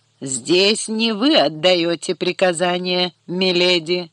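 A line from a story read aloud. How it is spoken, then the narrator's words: Menacing reply. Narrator (Russian): грозно ответил Лайонел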